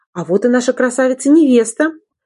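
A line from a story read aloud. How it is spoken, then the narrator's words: Cheerful exclamation. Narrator (Russian): воскликнула улыбчивая девушка-визажист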